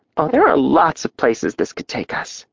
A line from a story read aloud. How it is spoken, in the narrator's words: she whispered